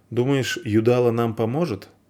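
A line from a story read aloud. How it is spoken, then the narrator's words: Plain. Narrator (Russian): спросил Вар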